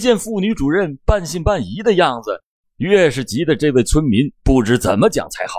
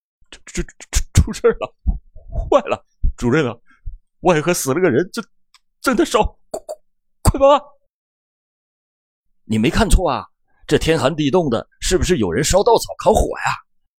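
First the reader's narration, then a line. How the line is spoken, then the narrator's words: Breathless, incoherent stammering. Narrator (Chinese): 气喘吁吁的，语无伦次地向妇女主任结结巴巴地说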